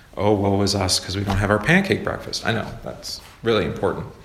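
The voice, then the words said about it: Sarcastic delivery. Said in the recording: “That was sarcasm?”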